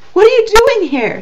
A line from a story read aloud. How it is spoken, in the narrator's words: She cried